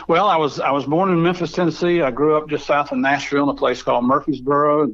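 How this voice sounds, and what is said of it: Southern Appalachian US accent. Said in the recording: “I'm kind of a cross between a redneck and a hillbilly, which explains my accent”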